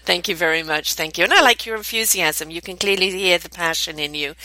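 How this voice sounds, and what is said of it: Noticeable accent. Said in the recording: “I just love your accent. I love that accent.”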